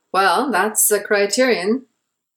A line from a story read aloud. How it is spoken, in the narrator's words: Naren chuckled